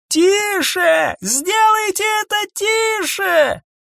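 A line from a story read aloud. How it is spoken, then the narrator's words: Soldier shouting. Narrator (Russian): второй солдат, закричал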